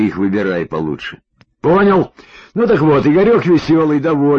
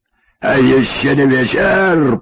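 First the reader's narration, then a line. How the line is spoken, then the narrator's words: Hoarse raspy imitation. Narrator (Russian): подхватил я с хрипотцой Высоцкого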